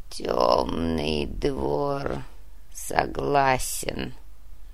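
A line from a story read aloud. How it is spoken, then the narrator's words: Muttered. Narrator (Russian): буркнул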